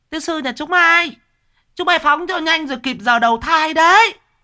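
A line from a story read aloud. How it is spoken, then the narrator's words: Shrill women yelling. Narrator (Vietnamese): mấy bà đánh đá gào lên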